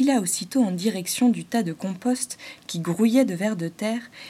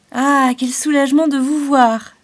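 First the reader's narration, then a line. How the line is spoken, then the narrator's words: Cried out. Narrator (French): s'écria Hector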